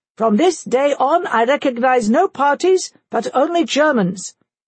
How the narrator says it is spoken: the Kaiser raised his voice and proclaimed

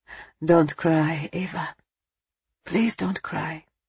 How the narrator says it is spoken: he whispered

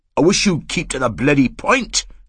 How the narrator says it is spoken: Blair said irritably

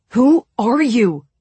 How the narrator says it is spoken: Mal asked furiously

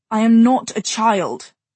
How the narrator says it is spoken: Jay said savagely

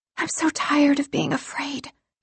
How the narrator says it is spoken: she murmured

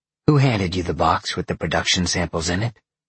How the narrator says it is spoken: Daylin growled

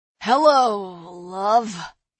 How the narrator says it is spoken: he slurred

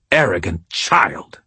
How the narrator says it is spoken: she spat

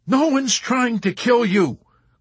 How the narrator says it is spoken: Clevenger cried

